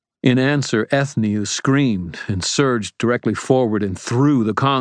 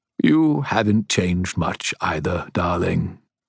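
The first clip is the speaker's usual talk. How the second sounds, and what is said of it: Very formal British accent. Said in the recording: “in a different voice ... It sounded like him, mostly, only with a very formal British accent.”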